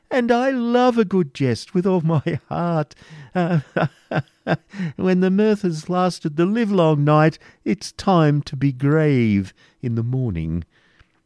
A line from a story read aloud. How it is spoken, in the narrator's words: said the astounded prior with a forced laugh